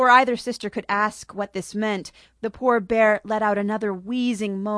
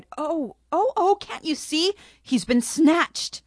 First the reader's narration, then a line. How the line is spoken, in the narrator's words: she cried